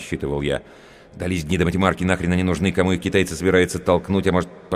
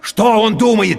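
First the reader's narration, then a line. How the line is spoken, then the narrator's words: Shouting. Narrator (Russian): теперь я тоже кричал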